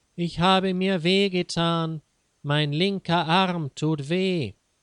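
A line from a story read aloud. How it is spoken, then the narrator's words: Loud call. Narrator (German): ruft laut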